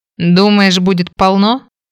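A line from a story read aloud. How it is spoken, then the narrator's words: Wry snort. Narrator (Russian): хмыкнул Фрэнк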